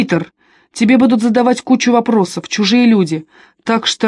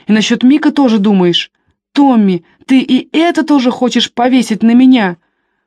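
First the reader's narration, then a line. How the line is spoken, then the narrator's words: Trembling voice, sobbing. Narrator (Russian): У него дрогнул голос, когда он назвал брата по имени, и он опять разрыдался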